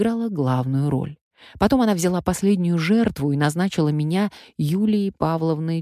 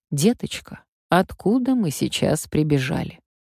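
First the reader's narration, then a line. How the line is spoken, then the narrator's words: Gentle question. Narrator (Russian): Раневская ласково спрашивала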